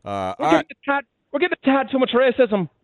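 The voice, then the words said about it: Put-on Irish accent. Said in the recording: “Your Irish accent's gotten much better”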